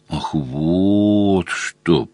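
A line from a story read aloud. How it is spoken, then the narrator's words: Drawled. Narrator (Russian): протянул полковник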